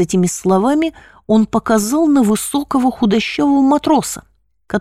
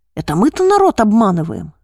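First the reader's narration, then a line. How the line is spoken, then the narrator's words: Angry exclamation. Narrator (Russian): гневно воскликнул отец Митрофан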